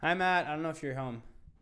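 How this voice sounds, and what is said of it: Yelling loudly. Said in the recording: “Sorry for yelling in the microphone.”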